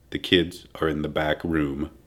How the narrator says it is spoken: John Allen Rubio quietly said

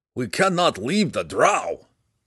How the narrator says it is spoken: he replied through clenched teeth

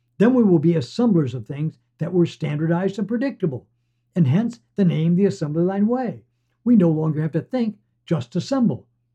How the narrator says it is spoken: shout

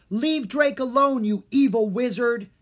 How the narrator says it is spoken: Jean cried

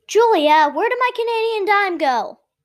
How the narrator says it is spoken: Benjamin howled

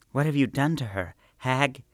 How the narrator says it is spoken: Her voice trembled with fear and revulsion

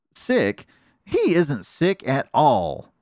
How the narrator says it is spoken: exclaimed Aunt Piffy, the fat old lady bear

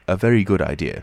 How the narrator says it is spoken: said the stranger

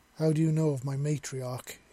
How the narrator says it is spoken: he asked

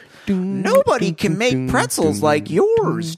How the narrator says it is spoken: Joe exclaimed

